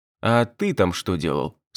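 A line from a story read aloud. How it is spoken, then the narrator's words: Plain. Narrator (Russian): спросил я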